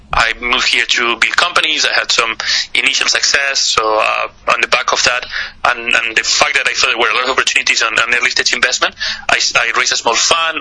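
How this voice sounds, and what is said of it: Spanish accent in English. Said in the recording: “if you can hear with my accent, I'm not Chinese. I'm actually Spanish”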